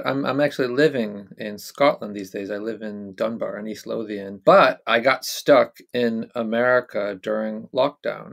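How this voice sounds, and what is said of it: American accent. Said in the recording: “as you might tell from my accent, I'm American”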